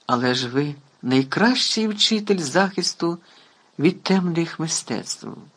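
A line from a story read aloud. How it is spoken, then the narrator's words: Exclaimed. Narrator (Ukrainian): вигукнув Гаррі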